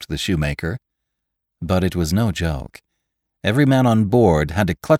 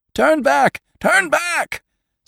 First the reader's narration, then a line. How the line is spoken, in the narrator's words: screamed the Moravian drovers